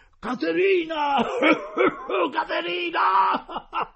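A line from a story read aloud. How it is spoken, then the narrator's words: Crowd yelling amid coughing. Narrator (Italian): è stato un coro generale di tosse e starnuti e tutti hanno incominciato a urlare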